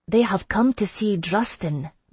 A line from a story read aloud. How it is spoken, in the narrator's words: Mraith said, in her liquid accent